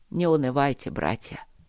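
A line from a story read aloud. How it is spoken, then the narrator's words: Quiet, abbot. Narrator (Russian): проговорил настоятель негромко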